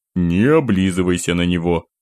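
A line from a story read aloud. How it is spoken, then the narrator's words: Grumbled. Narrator (Russian): Буркнул я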